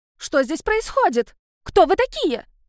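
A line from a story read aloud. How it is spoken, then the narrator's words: Shrill voice. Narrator (Russian): Визгливый голос Зойки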